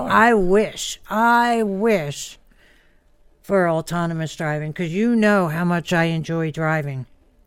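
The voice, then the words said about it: Sarcastic tone. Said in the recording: “I was being sarcastic.”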